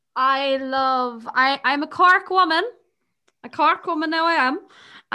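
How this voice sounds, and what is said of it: Exaggerated narrow Cork Irish accent. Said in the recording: “the accents, it sounds the same as the Kerry one. I had to get way more narrow now.”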